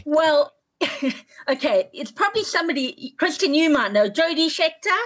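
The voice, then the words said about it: South African accent. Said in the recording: “hence my accent, I'm South African”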